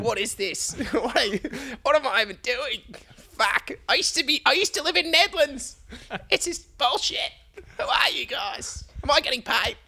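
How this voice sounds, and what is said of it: Imitates another person's voice. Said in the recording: “we can definitely fake a Wolfie ... I think that's your best impression yet.”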